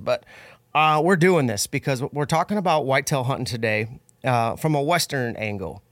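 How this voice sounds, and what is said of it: Sick, under-the-weather voice. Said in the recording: “I'm a little under the weather, so sorry my voice sounds what it is.”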